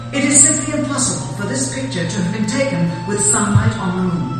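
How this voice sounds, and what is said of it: British accent. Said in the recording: “the narrator's beautiful British accent, although I've heard better”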